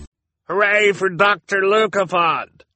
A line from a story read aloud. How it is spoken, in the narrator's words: a doctor cried, as the crowd burst into applause again